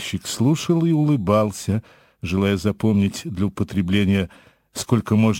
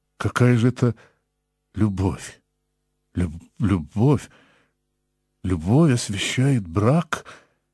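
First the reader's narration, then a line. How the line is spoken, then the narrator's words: Stammering. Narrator (Russian): сказал он, запинаясь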